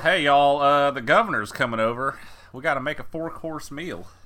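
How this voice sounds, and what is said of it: Exaggerated Southern Texas accent. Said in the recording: “everyone in the movie talks with a southern accent, a pronounced one ... a Texas accent ... everyone talks like Parker”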